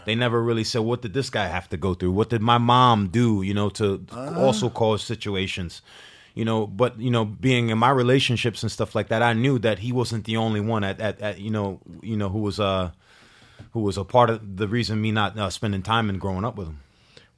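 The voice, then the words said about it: Put-on Jamaican accent. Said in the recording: “that was a tremendous Jamaican accent you just put on ... Phenomenal ... I understood about half”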